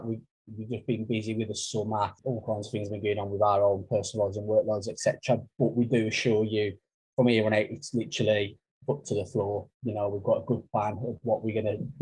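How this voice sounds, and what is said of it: Black Country English accent. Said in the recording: “my wonderful Black Country accent”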